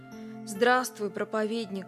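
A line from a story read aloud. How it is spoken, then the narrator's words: Heartbroken voice. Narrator (Russian): сказал он сокрушенным голосом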